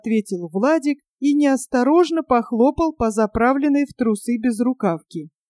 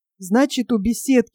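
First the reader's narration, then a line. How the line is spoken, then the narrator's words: Whispered reminder. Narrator (Russian): еще раз шепотом напомнил Толька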